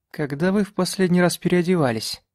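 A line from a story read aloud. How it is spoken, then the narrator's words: Plain. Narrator (Russian): спросила она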